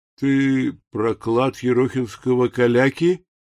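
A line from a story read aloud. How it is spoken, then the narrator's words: Insinuating question. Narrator (Russian): вкрадчиво спросил валет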